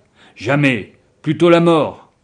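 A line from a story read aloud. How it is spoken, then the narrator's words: Group exclaiming. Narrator (French): s'exclamaient-ils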